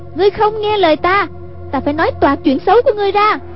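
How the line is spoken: Crying out. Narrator (Vietnamese): Hoàng Dung kêu lên

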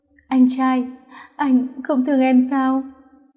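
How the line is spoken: Sobbing. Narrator (Vietnamese): Nam Cung Dạ Hy cắn môi nén nước mắt, nức nở nói

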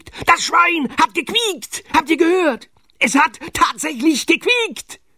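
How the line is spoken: Excited shout. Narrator (German): schrie er aufgeregt

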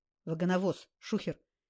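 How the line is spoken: Quiet warning. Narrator (Russian): негромко предупредил напарник

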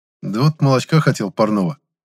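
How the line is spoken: Sighing. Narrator (Russian): Вздохнул

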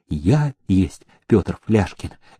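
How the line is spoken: Quiet reply. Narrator (Russian): тихим голосом отозвался он

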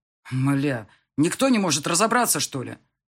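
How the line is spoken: Growl into phone. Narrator (Russian): Рыкнул в трубку

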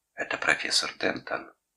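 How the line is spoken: Quiet. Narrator (Russian): тихо сказала

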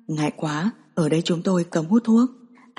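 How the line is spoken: Quiet voice. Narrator (Vietnamese): một nhân viên phục vụ nhỏ giọng nói với La Giao

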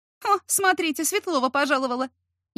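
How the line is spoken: Sarcastic snort. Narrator (Russian): Язвительно фыркнула Катя Фролова с эконома

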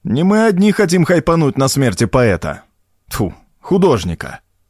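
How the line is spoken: Smirking snort. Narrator (Russian): хмыкнул Артем

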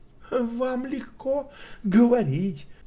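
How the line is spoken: Laughing. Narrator (Russian): Кроу рассмеялся

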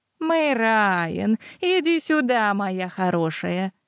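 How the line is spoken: Softened, motherly. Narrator (Russian): Она заметно смягчилась, превратившись из строгой госпожи в любящую мать

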